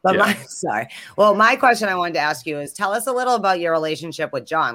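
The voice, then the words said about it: Eastern Massachusetts Boston accent. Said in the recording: “Boston accents ... I do think I have an East Coast, Eastern Massachusetts accent”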